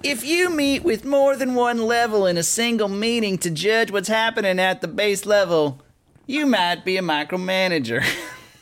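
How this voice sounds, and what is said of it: Imitates another person's voice, badly. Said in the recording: “my terrible Jeff Foxworthy impression”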